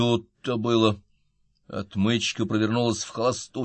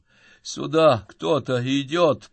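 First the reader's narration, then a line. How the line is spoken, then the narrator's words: Groan. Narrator (Russian): простонал Мортон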